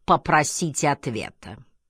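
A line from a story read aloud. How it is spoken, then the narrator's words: Commanding, burring, drawn-out. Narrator (Russian): картавя и растягивая слова, сказал повелительным тоном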